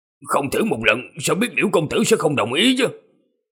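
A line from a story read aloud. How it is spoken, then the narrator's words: Muttering. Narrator (Vietnamese): Bạch lão nhị lẩm bẩm nói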